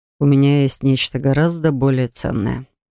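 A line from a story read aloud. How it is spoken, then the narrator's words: Quiet speech. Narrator (Russian): тихо проговорил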